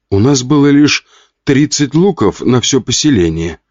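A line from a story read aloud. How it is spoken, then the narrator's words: Calm. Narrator (Russian): спокойно ответил тот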